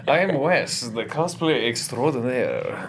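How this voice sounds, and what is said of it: Strange accent for Link. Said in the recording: “that is a strange accent for Link”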